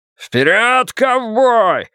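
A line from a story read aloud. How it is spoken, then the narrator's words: Yelling. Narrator (Russian): завопил Ллойд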